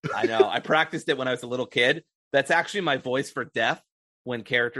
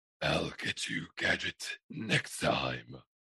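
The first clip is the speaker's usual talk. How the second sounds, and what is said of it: Dr. Claw impression. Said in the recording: “I can do a mean Dr. Claw from Inspector Gadget ... That's really good.”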